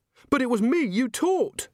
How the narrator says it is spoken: she said desperately

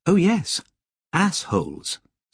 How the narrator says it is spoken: said Lobsang

